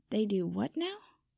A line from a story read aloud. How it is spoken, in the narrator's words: Harry asked faintly